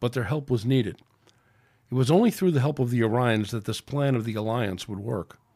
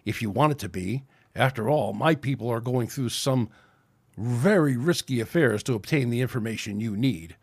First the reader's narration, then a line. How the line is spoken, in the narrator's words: hissed the Orion